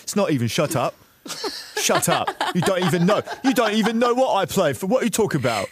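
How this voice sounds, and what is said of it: Imitates another person's voice. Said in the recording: “Great impression.”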